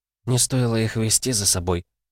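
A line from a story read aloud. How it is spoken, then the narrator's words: Whispered. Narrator (Russian): шепнула она Ивладу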